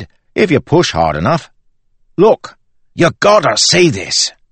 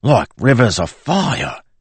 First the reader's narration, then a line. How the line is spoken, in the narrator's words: Wayne mumbled